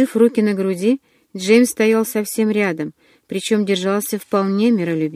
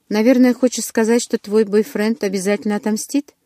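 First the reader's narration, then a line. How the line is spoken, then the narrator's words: Calm question. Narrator (Russian): спокойно спросил Джеймс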